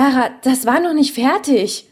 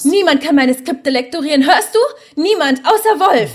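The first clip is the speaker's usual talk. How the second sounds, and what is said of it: Shouting angrily. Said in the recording (German): “schrei doch nicht so”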